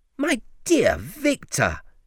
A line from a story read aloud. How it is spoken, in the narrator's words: Henry cried